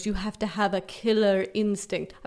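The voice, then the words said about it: Bad put-on British accent. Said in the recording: “I'm doing a terrible British accent ... Awful.”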